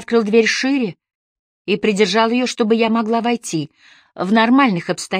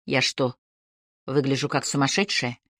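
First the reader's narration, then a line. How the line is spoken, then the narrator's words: Strained forced calm. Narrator (Russian): Я изо всех сил пыталась говорить спокойно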